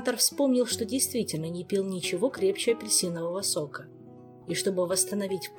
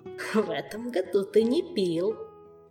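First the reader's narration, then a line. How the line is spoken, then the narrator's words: Giggling prompt. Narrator (Russian): хихика подсказал внутренний голос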